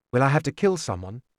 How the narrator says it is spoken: it was almost easy to be calm as I asked

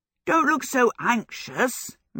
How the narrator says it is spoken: Michael laughed

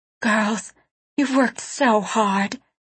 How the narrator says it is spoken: she whispered, her voice shaking with emotion

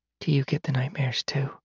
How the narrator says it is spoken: Lyra whispered

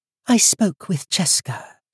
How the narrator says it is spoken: she said, and her voice was high and clear, like a child's

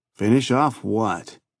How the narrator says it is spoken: Clausen sneered

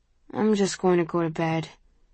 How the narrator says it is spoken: he mumbles

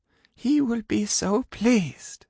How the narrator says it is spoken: she murmured

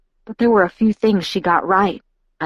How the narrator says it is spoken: I muttered

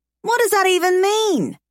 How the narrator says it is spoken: I yell

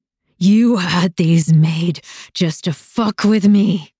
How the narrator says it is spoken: he roared

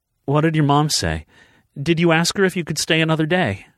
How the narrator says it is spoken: she asked anxiously

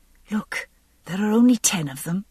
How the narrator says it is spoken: I whispered

